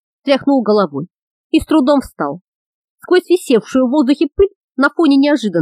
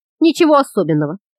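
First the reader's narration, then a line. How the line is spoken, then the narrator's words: Grumbling, coughing, sneezing. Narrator (Russian): проворчал Ангус, кашляя и чихая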